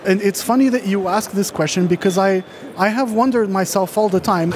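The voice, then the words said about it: American English accent. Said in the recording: “I do have a US accent”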